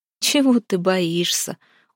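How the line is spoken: Laughing. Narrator (Russian): Он засмеялся

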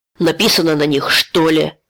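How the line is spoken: Snapping retort. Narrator (Russian): огрызнулся Сомов

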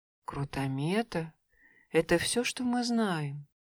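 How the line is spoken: Sad, group of drakes. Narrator (Russian): грустно сказали остальные шесть селезней

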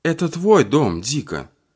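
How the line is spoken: Sad. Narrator (Russian): грустно сказала Соня

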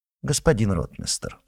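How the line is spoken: Calm, no mockery or threat. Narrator (Russian): спокойно поправился Козлодавлев, без усмешки, без угрозы

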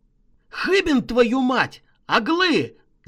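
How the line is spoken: Yelling. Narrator (Russian): заорал я

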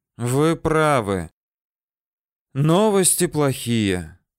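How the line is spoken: Sighing. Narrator (Russian): Андрей вздохнул

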